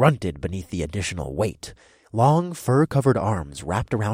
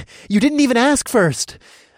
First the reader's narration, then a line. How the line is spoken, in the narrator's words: I gasped out mid-run